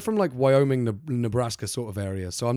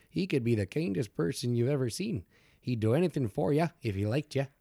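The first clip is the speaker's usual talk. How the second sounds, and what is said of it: Put-on Minnesotan accent. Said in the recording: “I'm not really sure what that accent is. I imagine it's like very North America, right? So it's like almost like Minnesota ... if you go Minnesotan, it shouldn't be too far off”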